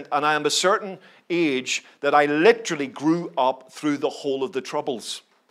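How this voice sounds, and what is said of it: Northern Irish Belfast accent. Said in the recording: “I grew up in Belfast, as you can probably tell from my accent.”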